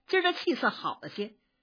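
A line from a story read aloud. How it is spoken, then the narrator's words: Smiling. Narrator (Chinese): 笑着说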